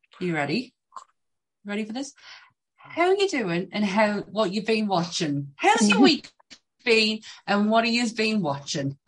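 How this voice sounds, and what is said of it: Put-on Irish accent. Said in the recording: “Why did you go Irish there? ... She's ... today ... The accent's changed.”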